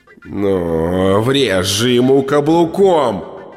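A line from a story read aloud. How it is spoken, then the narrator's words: Howl. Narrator (Russian): взвыл черный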